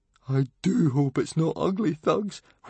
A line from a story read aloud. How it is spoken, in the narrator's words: whimpered Fishlegs